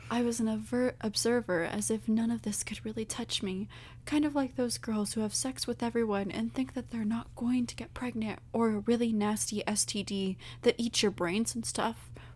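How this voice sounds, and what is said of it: Sultry, seductive put-on voice. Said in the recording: “we're talking in our sexy voice”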